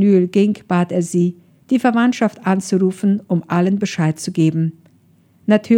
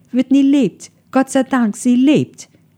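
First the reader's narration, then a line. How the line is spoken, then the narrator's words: Overjoyed calling out. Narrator (German): Sie war nicht imstande, ihre Freude im Zaum zu halten und rief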